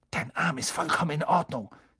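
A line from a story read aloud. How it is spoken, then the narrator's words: Hissing. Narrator (German): zischte er Malfoy zu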